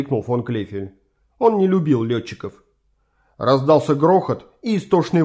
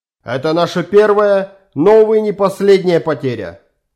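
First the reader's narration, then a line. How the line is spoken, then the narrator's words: Shouted, major. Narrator (Russian): Прокричал майор Фрике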